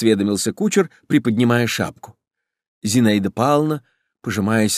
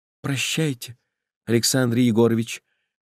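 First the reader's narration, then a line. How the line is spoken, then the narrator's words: Sad. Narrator (Russian): грустно сказала она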